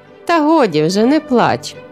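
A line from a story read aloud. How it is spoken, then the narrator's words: Cheerful reply. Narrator (Ukrainian): весело відповіла дружина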